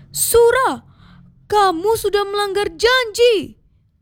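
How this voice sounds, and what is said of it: Shouting in a story. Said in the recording (Indonesian): “teriak Baya”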